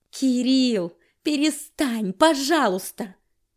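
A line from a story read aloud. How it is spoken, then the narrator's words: Helpless wail. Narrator (Russian): От бессилия я взвыла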